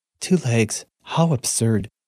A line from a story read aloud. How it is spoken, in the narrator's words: muttered